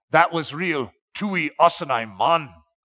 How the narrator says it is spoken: Connie leaned forward and exclaimed

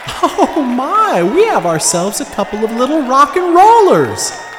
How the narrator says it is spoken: exclaimed over the din

